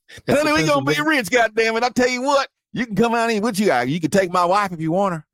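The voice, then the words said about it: Put-on Southern US accent. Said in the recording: “That's a Pennsylvania accent... That's my southern white man accent. It's universal.”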